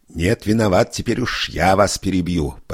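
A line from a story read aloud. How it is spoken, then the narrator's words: Almost shouting. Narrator (Russian): почти закричал прокурор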